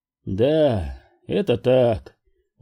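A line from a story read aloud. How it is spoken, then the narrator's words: Sighing. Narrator (Russian): вздохнул Уилкс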